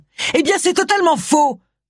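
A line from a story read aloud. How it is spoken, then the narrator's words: Raging exclamation. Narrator (French): s'exclama tout en rageant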